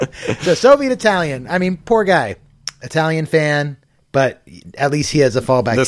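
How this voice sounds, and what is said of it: Usual voice. Nothing is said of it.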